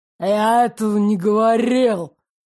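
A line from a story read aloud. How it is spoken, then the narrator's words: Growl. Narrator (Russian): прорычал Ирик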